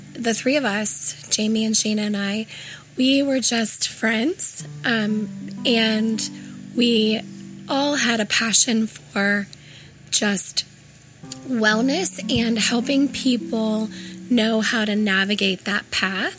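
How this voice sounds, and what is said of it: Raspy, hoarse voice. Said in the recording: “forgive my voice. I want to just say I have got laryngitis. So if I'm raspy,”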